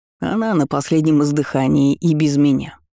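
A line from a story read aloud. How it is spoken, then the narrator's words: Chuckling. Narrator (Russian): хохотнул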